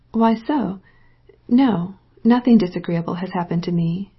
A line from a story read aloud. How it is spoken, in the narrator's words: she said coolly